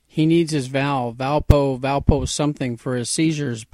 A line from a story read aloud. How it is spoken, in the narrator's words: Buck shouted toward the house